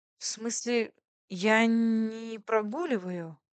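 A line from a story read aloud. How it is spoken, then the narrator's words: Stammering, defensive. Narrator (Russian): оправдывалась заикаясь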